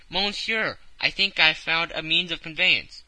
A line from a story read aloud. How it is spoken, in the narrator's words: hastened, said